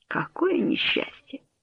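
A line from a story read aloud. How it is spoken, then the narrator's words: Vexed muttering. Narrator (Russian): пробормотал он с сильной досадой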